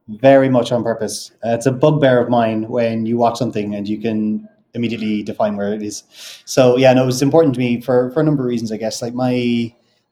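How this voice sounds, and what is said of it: Neutral Irish accent. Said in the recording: “I've got a very neutral Irish accent.”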